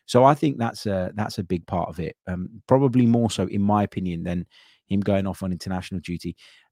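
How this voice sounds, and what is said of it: Slightly sore, hoarse throat. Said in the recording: “as for have I recovered from my cold, I feel better all round um, but my throat is still a little bit sore. You can probably still just about hear that in my voice.”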